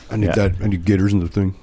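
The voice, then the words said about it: Imitates another person's voice. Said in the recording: “Maybe the worst Trump impression of the world. In fairness, I didn't really try, but I did try. ... That was horrible.”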